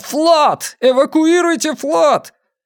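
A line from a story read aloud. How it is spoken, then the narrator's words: Desperate shout. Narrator (Russian): Как и Дин И, он отчаянно закричал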